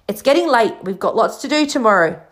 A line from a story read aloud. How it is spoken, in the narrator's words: said Hagrid loudly